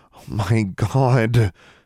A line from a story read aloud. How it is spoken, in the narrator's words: Alexandra groaned